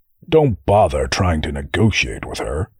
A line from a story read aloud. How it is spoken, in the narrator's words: Darl groaned